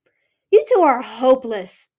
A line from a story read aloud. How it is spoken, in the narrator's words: Pearl barked